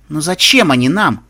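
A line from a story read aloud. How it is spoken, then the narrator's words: Irritated question. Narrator (Russian): раздраженно спросил я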